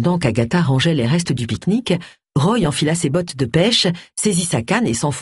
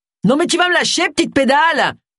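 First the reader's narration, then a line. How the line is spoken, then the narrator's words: Man roaring. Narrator (French): rugit l'homme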